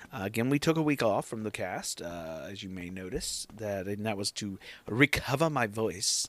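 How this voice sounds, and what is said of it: Scratchy, hoarse voice. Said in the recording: “You can hear my voice is a little scratchy. I got a little gunk in my throat”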